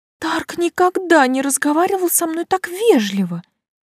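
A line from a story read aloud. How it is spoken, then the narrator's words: Exclaimed. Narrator (Russian): воскликнула Карин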